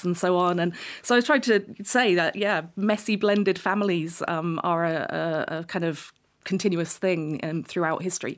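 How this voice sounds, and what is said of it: Very English accent. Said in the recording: “an Irish woman with a very English accent this morning”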